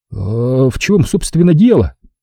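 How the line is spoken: Trembling voice. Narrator (Russian): дрожащим голосом спросил Том

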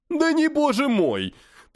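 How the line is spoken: Grandiloquent exclamation. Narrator (Russian): патетически воскликнул Жданов

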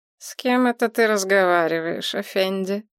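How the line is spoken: Nasal voice nearby. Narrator (Russian): раздался рядом гнусавый голос

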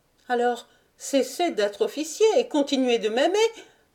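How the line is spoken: Shouted. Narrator (French): cria Lucienne

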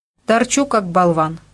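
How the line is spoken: Angry reply, young man. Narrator (Russian): сердито ответил парень

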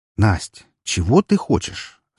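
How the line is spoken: Forced calm question. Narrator (Russian): Стараясь говорить как можно более спокойным тоном, спросила я ее

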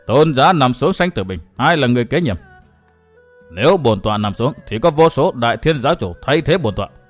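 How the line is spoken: Stern voice. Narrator (Vietnamese): Thiếu Hải nhìn đại thiên giáo chủ nghiêm giọng nói

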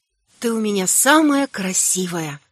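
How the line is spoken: Whisper. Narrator (Russian): шепнула

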